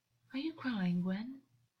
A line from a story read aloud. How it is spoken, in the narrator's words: August said softly